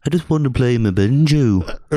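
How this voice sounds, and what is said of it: Imitates another person's voice. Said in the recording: “Ooh, that's a good impression. ... That's Paul.”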